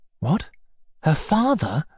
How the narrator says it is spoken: I answered, also in a whisper

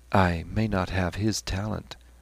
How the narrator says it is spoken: said Stephen quietly

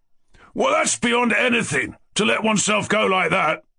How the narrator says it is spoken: roared Ferdyshenko

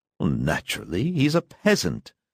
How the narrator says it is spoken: muttered her mother

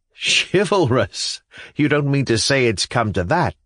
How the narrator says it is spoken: laughed Nicholas

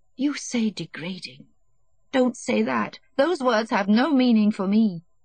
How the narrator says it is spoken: she said in a shaking voice

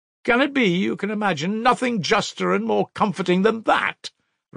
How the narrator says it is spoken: Raskolnikov cried with a feeling of anguish

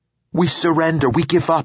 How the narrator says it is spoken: she yelled, and great relief and happiness spread over her face

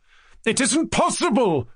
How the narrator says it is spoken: cried Mushkin suddenly, with deep and heartfelt reproach

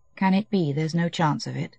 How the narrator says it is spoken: murmured with his lips only

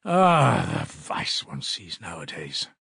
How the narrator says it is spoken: he repeated aloud, sighing

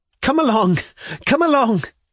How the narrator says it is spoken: cried Lisa, almost in hysterics

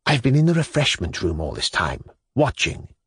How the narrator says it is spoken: whispered, with the air of a guilty schoolboy, which he, however, assumed on purpose to irritate her even more

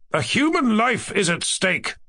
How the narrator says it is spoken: I shouted to him

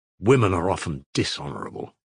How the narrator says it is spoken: snarled

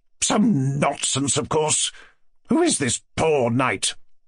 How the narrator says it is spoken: she added angrily

